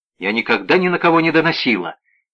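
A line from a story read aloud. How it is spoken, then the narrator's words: Sharp interruption. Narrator (Russian): резко оборвала она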